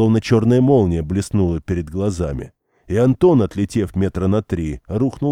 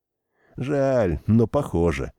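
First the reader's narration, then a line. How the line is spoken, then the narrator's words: Sighing. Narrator (Russian): вздохнул Сашка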